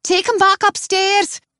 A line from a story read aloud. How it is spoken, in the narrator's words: shouts Claire